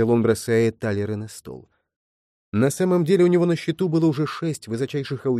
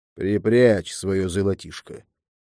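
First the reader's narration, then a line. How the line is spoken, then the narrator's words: Muttering. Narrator (Russian): пробурчал он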